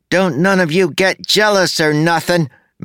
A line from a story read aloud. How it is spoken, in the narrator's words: shouted